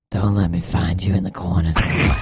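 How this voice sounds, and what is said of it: Scary, terrifying put-on voice. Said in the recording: “it's like a really scary voice. ... It's pretty terrifying.”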